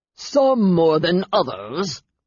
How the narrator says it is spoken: growled Lucian

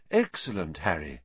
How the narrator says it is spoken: Lupin muttered

